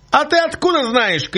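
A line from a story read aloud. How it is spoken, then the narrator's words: Shouted. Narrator (Russian): крикнул ему Цугуля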